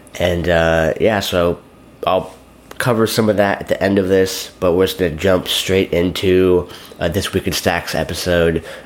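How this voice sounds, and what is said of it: Slightly coarse, hoarse voice. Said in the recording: “my voice is a little coarse because I've been talking for the past day and a half straight”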